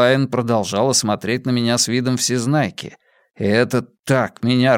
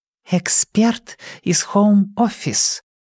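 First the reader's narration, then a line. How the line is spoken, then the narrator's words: Breathy exhale. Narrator (Russian): выдохнула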